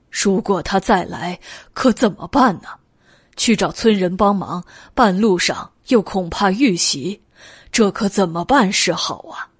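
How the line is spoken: Sighing, worried. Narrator (Chinese): 王维叹了一口气，发愁的道

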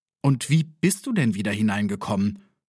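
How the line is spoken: Plain. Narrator (German): fragte

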